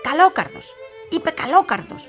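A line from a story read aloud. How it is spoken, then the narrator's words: Witch shrieking. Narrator (Greek): ούρλιαξε μια μάγισσα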